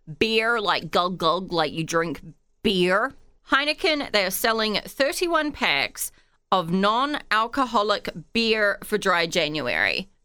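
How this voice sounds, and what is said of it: Noticeable own accent. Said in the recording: “My accent might be throwing you off.”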